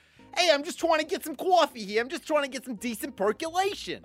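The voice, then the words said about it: Put-on New York American accent. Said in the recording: “American... No, New York. Let's go to New York.”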